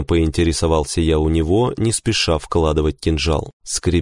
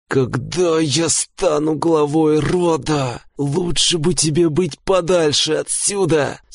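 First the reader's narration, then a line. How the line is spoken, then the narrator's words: Pained hiss through teeth. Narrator (Russian): Скрипя зубами, от едва скрываемой боли прошипел он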